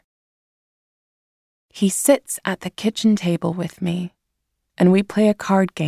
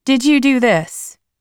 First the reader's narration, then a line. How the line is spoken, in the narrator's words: Mom shouts